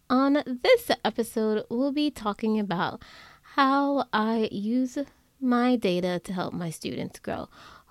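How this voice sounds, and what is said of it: Scratchy voice from a cold. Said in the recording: “my voice sounds a little bit weird or scratchy, it's because I have a cold”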